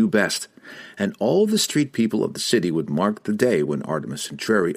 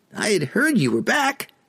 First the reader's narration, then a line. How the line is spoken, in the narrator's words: squeaked a diminutive chap appearing as a human boy, not yet into adolescence